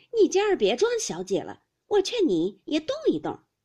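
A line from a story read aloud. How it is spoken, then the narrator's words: Laughing. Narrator (Chinese): 麝月笑道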